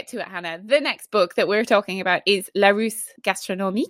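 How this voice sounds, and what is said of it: Put-on French accent on title. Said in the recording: “Ooh, great accent. ... terrible.”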